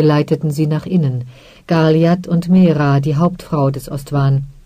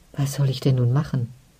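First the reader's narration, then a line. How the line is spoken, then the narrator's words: Quiet question. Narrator (German): fragte Dirilia leise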